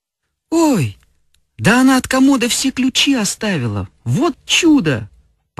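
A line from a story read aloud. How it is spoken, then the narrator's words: Exclaiming. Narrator (Russian): воскликнула Феня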